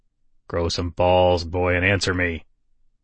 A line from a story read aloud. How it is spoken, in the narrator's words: Bobby growled